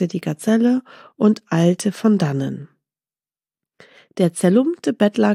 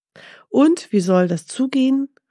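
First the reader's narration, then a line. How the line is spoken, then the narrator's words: Called out. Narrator (German): rief Mustafa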